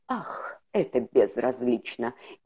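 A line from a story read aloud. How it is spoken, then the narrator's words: Mumbling. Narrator (Russian): Незнакомец пробормотал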